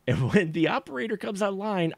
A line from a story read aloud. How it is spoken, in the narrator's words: I scream as loud as I can